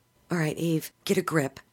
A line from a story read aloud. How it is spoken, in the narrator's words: she muttered